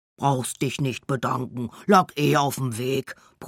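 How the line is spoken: Gruff bear's grumble. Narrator (German): brummt der Bär

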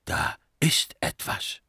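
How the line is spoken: Whisper. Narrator (German): flüsterte

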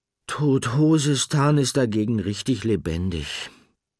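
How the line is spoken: Sighing after a pause. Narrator (German): seufzte Nickel nach einer Weile

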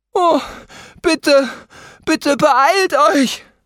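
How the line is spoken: Gasping. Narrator (German): japste Carmen

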